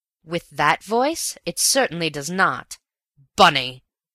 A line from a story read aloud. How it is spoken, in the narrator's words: he cried so fiercely